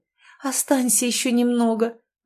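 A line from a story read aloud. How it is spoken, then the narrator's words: Pleading. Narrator (Russian): взмолилась она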